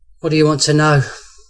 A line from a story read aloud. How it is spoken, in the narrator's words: Major Walton sighed